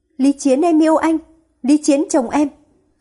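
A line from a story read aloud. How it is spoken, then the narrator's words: Frantic repeated screaming. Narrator (Vietnamese): gào thét, lặp đi lặp lại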